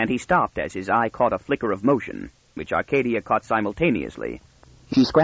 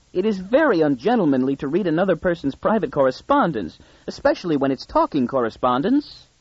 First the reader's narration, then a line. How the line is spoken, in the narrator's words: she squeaked in real anguish